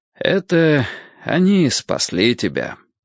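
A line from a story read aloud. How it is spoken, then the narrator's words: Sighing. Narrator (Russian): вздохнул Гурский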